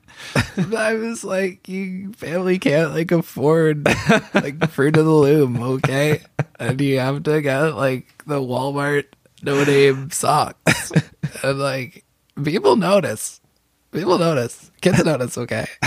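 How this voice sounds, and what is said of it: Sad boy voice shifting to elderly woman. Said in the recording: “That impression went from sad little boy to sad elderly woman throughout the course of the impression.”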